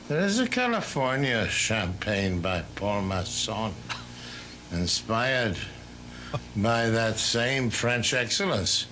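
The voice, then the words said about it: Affected famous-actor accent. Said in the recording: “that was not a Wisconsin accent ... He's got like famous person accent ... He had that accent that Lunton Fontaine had ... That I'm an actor. Accent.”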